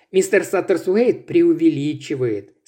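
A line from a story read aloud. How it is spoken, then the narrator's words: Calm. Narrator (Russian): спокойно произнес он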